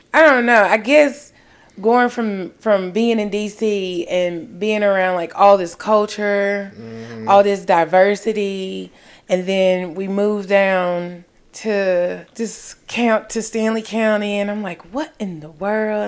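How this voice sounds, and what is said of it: Distinct accent, mistaken for Texan. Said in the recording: “some people thought I was from Texas because of my accent... I'm not going to say strong, but you have a distinct accent”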